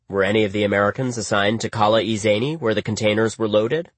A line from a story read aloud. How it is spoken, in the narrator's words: I asked Dostum